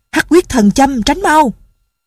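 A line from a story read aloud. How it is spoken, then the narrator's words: Urgent shout. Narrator (Vietnamese): Đinh Miễn la lên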